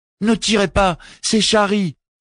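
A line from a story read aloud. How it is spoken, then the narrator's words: Exclaiming. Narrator (French): s'écria Jack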